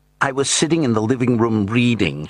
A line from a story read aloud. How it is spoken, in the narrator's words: she said eagerly